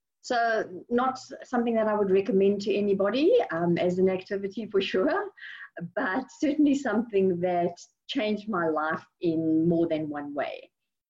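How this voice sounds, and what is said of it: South African accent. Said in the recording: “as you can tell, I'm not originally from Houston, although that's where I live right now, unless some people think that this is a Houstonian accent. I'm originally from South Africa”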